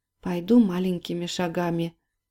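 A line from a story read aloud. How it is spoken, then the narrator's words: Whispered. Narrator (Russian): шепотом сказала Полина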